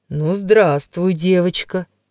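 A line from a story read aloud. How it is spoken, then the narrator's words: Deep bass, portly man. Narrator (Russian): произнес густым басом полный господин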